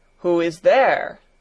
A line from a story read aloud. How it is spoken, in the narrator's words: thundered the doctor, in a voice that echoed through the hall